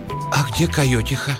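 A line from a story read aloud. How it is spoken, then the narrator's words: Hoarse girl's question. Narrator (Russian): Девочка спросила хрипло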